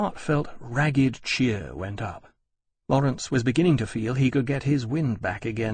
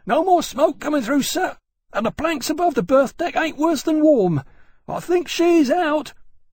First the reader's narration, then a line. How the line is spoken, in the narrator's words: Riley's coxswain, Basson, panting, and shouted